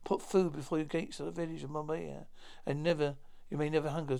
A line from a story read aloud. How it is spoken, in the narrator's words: Tarzan sighed